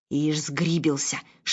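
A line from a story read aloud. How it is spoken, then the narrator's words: Whisper. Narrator (Russian): шепнула Анне Ирина Ивановна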